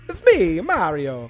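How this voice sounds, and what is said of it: Exaggerated Italian-American accent. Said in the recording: “What's an Italian accent? ... my only touchstone for an Italian accent is Mario ... Which is undoubtedly a racist way to do it ... That's an Italian American anyway.”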